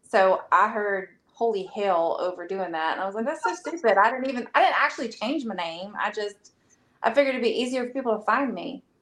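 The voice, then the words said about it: Light Southern American twang. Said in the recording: “I hear so much Southern in your accent ... a little bit of that Southern twang”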